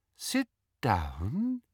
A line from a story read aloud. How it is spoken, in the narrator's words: said Umbridge in her soft, silky voice